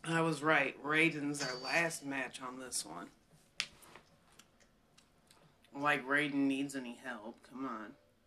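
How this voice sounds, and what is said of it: Slightly raspy voice. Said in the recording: “I'm feeling a little raspy”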